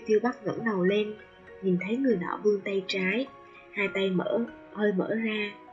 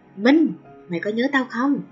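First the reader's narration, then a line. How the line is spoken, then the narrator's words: Laughing loud shout. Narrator (Vietnamese): Người nọ phá lên tiếng cười, hét lớn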